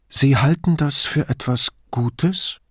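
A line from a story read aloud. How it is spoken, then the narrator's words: Forced calm question. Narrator (German): fragte Duso so ruhig er nur konnte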